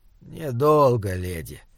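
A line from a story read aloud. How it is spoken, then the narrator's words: Quiet small voice. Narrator (Russian): тихо сказал маленький человек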